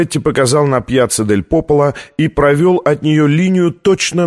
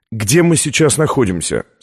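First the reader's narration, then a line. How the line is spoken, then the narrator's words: Plain. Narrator (Russian): спросил Лэнгдон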